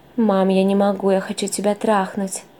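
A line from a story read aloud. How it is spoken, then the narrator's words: Passionate moan. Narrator (Russian): Простонал он, страстно ее целуя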